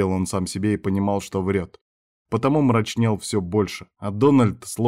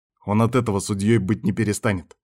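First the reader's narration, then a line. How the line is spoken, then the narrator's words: Angry snort. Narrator (Russian): зло фыркнул Кастер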